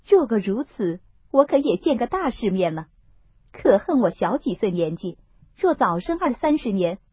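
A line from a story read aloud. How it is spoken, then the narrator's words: Laughing. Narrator (Chinese): 凤姐笑道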